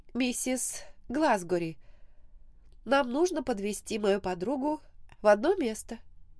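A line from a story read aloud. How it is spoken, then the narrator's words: Hesitant speech. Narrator (Russian): неуверенно сказала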